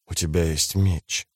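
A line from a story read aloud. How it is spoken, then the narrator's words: Inner mumbling. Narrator (Russian): забормотала некая часть его сознания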